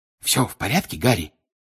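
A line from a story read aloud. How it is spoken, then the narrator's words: Whisper. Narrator (Russian): прошептал Бегман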